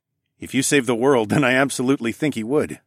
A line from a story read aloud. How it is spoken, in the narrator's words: I chuckled